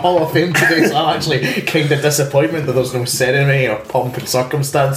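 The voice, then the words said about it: Glasgow Scottish accent. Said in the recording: “the embodiment of the Glasgow Uni accent”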